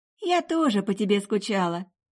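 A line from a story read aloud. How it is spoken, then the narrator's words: Tender cooing. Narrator (Russian): проворковала Мэрил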